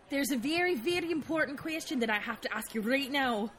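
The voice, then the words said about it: Put-on accent for a female character. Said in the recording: “I forgot her accent”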